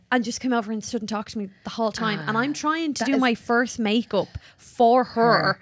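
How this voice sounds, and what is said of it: Irish accent. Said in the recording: “my Irish ... voice”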